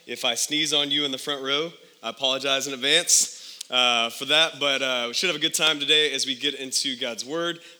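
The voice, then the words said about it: Voice sounds funny, under the weather. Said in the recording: “I am a little bit under the weather, and so if my voice sounds funny”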